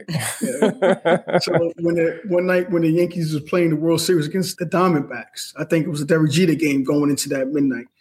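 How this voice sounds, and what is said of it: New York accent. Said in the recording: “I'm a New York sports fan. ... If you can't tell by that accent”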